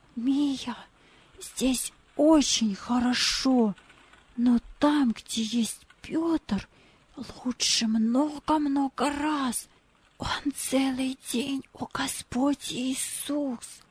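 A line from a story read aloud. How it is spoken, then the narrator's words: Whispered in ear. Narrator (Russian): прошептал ей на ухо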